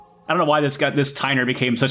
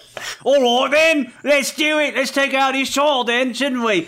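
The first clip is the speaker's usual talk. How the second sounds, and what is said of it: Cockney villain voice. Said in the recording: “such a cockney villain all of a sudden. I gave him a slight British accent earlier”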